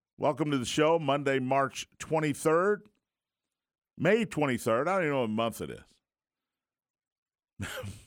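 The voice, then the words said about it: Worn-out, recovering voice. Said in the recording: “Excuse the voice. It's the I'm recovering from vacation voice.”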